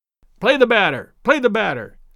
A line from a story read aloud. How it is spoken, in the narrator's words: sharply called Daddy from the bench